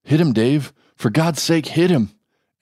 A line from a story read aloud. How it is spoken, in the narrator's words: Andrew begged